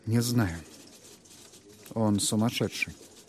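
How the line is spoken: Quiet reply. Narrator (Russian): Тихо ответил Торн

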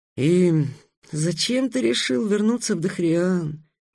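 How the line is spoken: Moaning. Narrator (Russian): простонал Майхель

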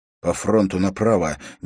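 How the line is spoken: Quiet command. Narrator (Russian): негромко скомандовал Уилл

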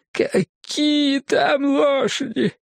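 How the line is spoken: Near howling. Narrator (Russian): чуть не взвыл Джим

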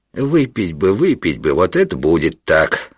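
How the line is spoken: Through gritted teeth. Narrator (Russian): отвечал Панурк сквозь зубы

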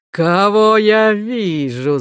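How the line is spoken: King shouting. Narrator (Russian): закричал царь

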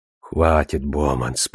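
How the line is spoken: Muttered. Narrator (Russian): пробормотал он

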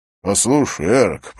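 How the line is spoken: Irritated tone. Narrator (Russian): произнес он раздраженным тоном

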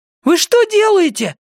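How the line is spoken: Boy wailing. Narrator (Russian): завопил мальчик

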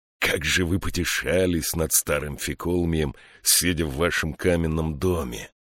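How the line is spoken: Hissed. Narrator (Russian): прошипел Марк Тан

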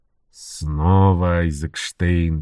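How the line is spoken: Irritated mutter. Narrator (Russian): буркнул Энтони раздраженно

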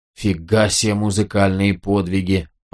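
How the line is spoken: Muttered. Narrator (Russian): пробормотал Ганелон

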